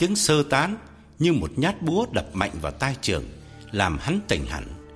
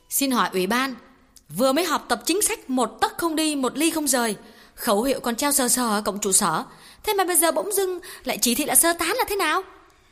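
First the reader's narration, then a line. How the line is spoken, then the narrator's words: Loud. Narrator (Vietnamese): Cô giáo Kim lớn tiếng nói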